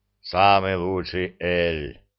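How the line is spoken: Booming drone. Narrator (Russian): прогудел Зырк

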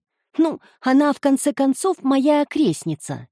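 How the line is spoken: Happy reply. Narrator (Russian): радостно ответила Эмми

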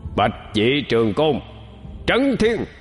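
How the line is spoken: Loud shout. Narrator (Vietnamese): Bạch Hầu ... hắn hét lớn

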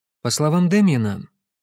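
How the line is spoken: Very calm. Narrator (Russian): Кэсси говорила очень спокойно

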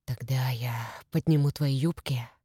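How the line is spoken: Whisper. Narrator (Russian): прошептал он

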